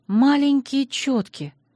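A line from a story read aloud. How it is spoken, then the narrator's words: Disappointed sigh. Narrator (Russian): огорченно вздохнула я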